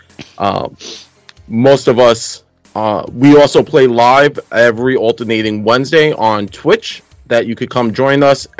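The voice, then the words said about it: Brooklyn New York accent. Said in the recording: “We're from New York, so if I have a terrible accent ... that's what happens when you grow up in Brooklyn”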